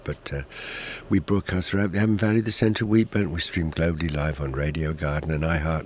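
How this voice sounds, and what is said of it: Hoarse, croaky voice. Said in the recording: “I've got a bit of a frog in my throat this morning. I hope my voice doesn't give out.”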